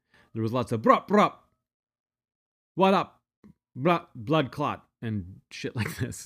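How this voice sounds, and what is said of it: Imitates a thick, hard-to-understand accent. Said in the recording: “he's got such a thick accent that I'm having a hard time understanding what he's saying”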